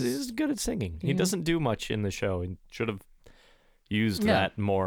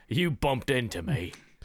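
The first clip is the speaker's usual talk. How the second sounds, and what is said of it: Imitates a TV character's voice. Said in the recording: “Bronn doesn't sound like that. I don't know why I'm doing that voice.”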